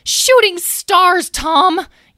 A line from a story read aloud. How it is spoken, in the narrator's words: yelled Talora